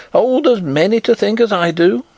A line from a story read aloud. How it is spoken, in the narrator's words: cried the old woman stubbornly